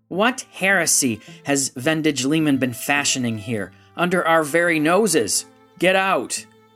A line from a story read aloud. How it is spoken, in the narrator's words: Tidij Gorat yelled